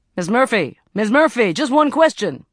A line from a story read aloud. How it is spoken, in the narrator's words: shouted